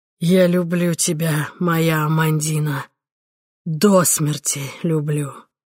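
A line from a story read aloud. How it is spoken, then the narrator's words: Hoarse wheeze. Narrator (Russian): прохрипев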